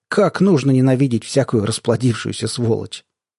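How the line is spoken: Almost sympathetic question. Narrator (Russian): Второй спросил почти участливым голосом

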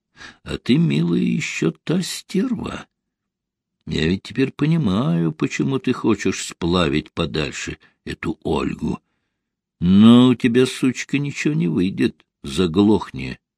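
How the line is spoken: Quiet reply. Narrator (Russian): тихо ответила ему Рита

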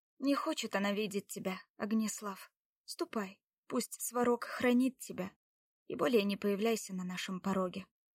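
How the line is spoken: Quiet, without malice. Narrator (Russian): Лада тихо, без злобы, молвила

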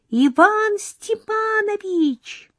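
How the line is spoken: Shrieked. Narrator (Russian): завизжала Лёлька

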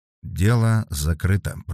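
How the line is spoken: Drawling. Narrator (Russian): протянул Вербин

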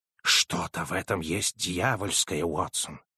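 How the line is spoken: Whispered. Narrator (Russian): прошептал

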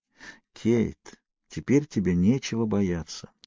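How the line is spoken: Repeated whisper. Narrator (Russian): постоянно шептал я

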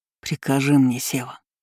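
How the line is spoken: Muttering. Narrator (Russian): забормотал он

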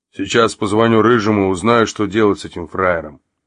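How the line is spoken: Deep hoarse bass. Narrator (Russian): сказал некто глубоким хриплым басом

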